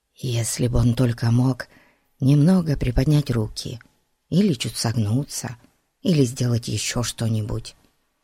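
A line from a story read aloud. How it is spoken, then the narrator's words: Whispered. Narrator (Russian): прошептал Ларри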